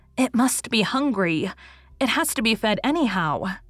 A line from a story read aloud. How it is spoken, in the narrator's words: said Rilla desperately